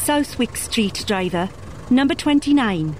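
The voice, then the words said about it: Posh English accent. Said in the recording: “the airman's posh accent”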